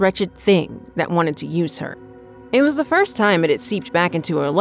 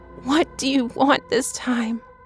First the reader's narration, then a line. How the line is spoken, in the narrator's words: Ava's words trickled out weakly